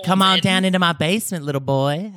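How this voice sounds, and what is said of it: Put-on Southern American accent. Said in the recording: “But I like a Southern, pleasant Southern accent.”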